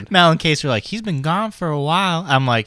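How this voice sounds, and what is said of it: Sing-song put-on Southern accent. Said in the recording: “why did this sound southern? ... It was like a sing-song-y.”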